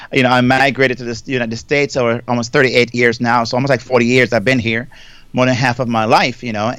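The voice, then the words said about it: Jamaican accent. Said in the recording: “everybody may hear my accent. So I want to kind of really upfront just say I'm from Jamaica originally.”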